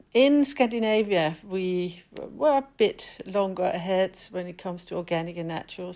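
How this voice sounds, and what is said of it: Danish accent. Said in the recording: “as you can hear in my accent, I'm definitely not British, but I'm Danish.”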